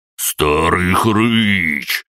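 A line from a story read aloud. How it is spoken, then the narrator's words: Hunchback's roar. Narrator (Russian): проревел горбатый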